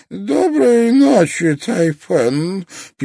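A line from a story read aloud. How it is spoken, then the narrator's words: Squeak. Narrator (Russian): пискнул Аристотель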